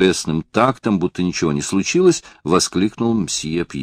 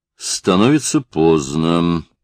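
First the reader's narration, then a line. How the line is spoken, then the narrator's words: Dull, muffled. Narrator (Russian): глухо произнес директор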